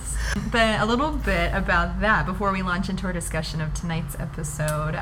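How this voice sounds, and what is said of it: American accent. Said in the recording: “I sound very American”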